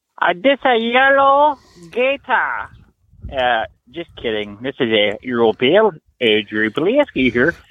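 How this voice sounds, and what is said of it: Put-on character voice. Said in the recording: “doing a voice”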